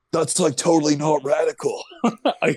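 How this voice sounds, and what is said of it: Imitates another person's voice. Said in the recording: “I want to do a Keanu impression ... You went as younger role. You went like Bill and Ted.”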